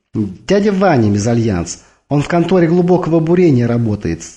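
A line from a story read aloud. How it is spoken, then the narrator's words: Joyful announcement. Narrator (Russian): радостно сообщила Викса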